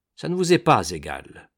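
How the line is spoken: Cold. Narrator (French): dit Wemmick froidement

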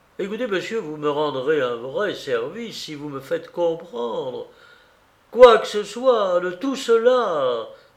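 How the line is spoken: Sudden passionate exclamation. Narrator (French): s'écria soudain Maurice avec un élan passionné de conviction

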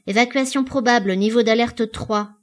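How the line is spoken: Firm, resolute voice. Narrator (French): commença par dire 27, d'une voix ferme et résolue

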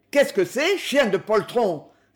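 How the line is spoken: Contemptuous shout. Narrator (French): s'écria l'entraîneur d'un ton de mépris

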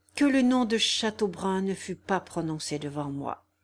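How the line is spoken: Speaking with deep sigh. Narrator (French): dit le marquis avec un profond soupir

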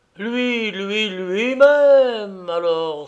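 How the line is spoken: Ecstatic exclamation. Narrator (French): s'écria le paysagiste au paroxysme de la joie

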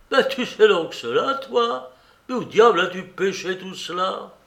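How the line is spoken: Exclaiming, banging the table. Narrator (French): Il s'écria en frappant sur la table

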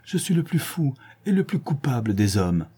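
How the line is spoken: Crying out. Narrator (French): s'écria-t-il

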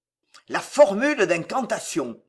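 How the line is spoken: Growled. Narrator (French): gronda-t-il

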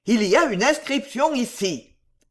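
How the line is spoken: Exclaiming. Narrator (French): s'écria M

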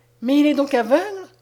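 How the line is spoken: Despairing exclamation. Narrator (French): s'écria Madeleine avec désespoir

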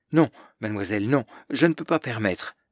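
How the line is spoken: Stammering. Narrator (French): bafouille-t-il

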